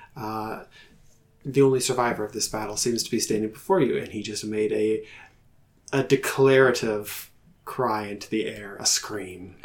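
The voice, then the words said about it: Soft, calm radio-announcer voice. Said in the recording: “Did I put on my ASMR? ... voice? ... On your NPR voice.”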